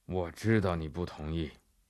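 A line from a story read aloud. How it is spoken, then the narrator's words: Hoarse, flat reply. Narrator (Chinese): 英格曼神父哑不可耐了，他淡淡地回答法比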